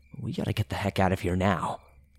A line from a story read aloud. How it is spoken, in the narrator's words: I told E in a hushed but anxious tone